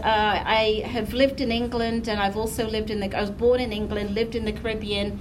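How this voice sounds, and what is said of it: Mixed English accent. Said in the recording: “I come from England, so as you can tell from the accent, I always say there's diversity in the accent”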